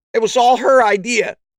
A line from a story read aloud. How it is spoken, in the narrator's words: he yelped